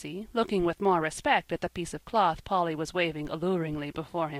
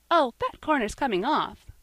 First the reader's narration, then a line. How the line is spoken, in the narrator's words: cried Polly cheerfully